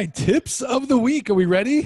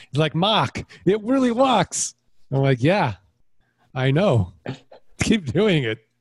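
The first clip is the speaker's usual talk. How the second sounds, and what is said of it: Put-on Boston accent. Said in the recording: “I apologize for everybody in the Boston area for that accent.”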